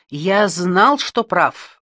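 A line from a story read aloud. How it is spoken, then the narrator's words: Exclaimed. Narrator (Russian): воскликнул Альберг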